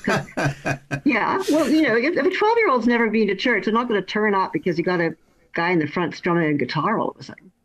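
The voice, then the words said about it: Canadian accent, not English. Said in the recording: “my accent isn't English ... I'm originally from Canada ... My accent stays the same”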